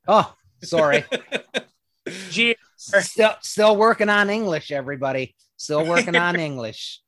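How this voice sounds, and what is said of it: Newfoundland accent. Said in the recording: “just sounded like a G because of his Newfie accent.”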